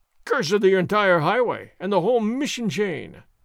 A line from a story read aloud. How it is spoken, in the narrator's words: Sergeant Gonzalez roared